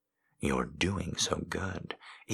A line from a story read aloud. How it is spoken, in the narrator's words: he whispers, lips brushing back and forth across mine